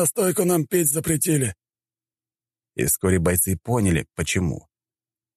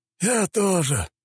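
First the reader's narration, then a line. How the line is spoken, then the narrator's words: Man sighing. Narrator (Russian): вздохнул мужчина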